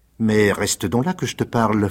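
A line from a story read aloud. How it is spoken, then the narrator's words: Coaxing voice. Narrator (French): fit Rocambole d'une voix câline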